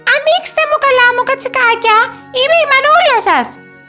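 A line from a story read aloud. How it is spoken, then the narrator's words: Wolf's high-pitched voice. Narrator (Greek): είπε ο λύκος με ψηλή φωνή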